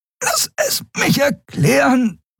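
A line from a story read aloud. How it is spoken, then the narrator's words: Panting. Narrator (German): keuchte Endriel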